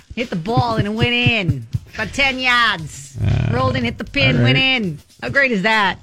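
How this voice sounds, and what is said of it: Put-on Boston accent. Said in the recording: “hearing you do the Boston accent”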